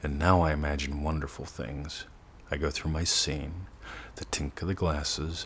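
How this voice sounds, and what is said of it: Slower, calmer, relaxed speech. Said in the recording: “My words slow a little bit. My breathing shifts ... you can hear the difference in my voice.”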